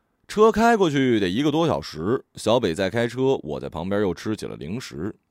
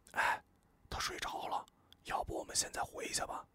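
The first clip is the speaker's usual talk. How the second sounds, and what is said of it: Quiet, hushed speaking. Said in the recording (Chinese): “小声跟我们说”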